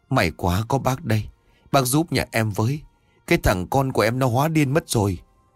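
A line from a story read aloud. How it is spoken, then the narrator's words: Relieved, tearful. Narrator (Vietnamese): Người đàn bà tên Loan thấy ông Khải có nhà thì mừng rỡ, mếu máo rồi hỏi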